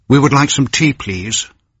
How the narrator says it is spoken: Señor Cortés asked

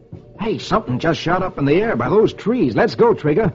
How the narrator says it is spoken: He exclaims

